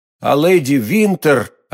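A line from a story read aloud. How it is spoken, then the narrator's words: Plain. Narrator (Russian): ответил Д'Артаньян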